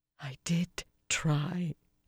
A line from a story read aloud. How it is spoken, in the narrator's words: she said finally, in a breathy tone